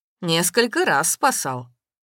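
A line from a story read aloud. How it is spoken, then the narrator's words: Cheerful. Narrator (Russian): весело сказал Максим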